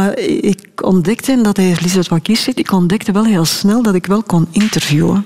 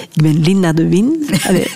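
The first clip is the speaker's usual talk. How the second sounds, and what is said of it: Exaggerated Antwerp accent. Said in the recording (Dutch): “zonder eh, Antwerps accent... ik, overdrijf nu een beetje... het zal wel een beetje zo geklonken hebben”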